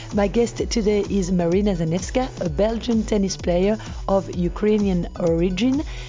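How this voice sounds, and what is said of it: French accent in English. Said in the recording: “I hope you'll forgive my French accent.”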